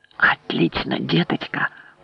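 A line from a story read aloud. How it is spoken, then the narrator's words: Whisper. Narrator (Russian): прошептал дядюшка Кинс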